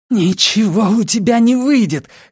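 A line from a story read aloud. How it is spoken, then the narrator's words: Hoarse rasp. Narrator (Russian): хрипит Мельда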